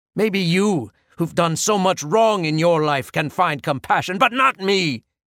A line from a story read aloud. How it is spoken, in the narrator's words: she screamed